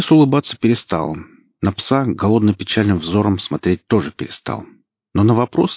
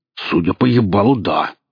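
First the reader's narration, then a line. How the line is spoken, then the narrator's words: Growling bearded man. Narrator (Russian): прорычал бородатый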